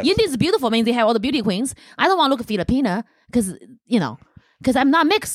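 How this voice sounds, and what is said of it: Chinese accent. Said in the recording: “why do you have a Chinese accent”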